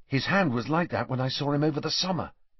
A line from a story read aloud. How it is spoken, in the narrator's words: Harry whispered to Hermione